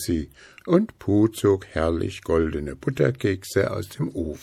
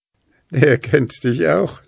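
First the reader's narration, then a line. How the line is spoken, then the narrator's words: Loud booming laugh. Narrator (German): lachte Puh schallend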